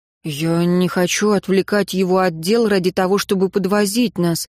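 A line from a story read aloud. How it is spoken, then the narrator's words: Mumbled. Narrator (Russian): промямлил Райан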